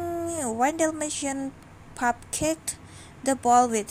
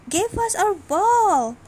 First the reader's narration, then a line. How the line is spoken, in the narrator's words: shouting